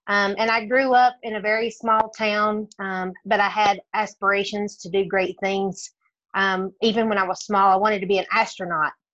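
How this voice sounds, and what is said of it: Tennessee Southern American accent. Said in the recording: “as you can tell by my accent, I grew up in the state of Tennessee”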